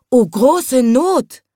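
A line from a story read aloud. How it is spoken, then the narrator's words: Woman calling out. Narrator (German): rief die Blumenfrau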